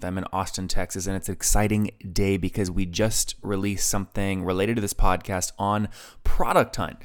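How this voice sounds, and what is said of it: Whispering. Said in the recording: “I'm kind of whispering”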